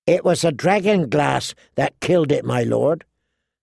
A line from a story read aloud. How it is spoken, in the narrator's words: Sam explained feebly